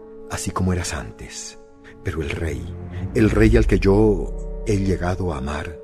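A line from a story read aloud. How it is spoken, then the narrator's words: Very quiet voice. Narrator (Spanish): habló con voz muy baja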